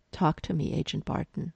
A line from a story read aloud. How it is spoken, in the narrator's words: Coulson in his ear calmly saying